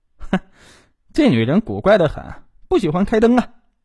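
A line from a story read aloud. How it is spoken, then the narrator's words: Giggling. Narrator (Chinese): 小严嘻嘻一笑，指指浴室说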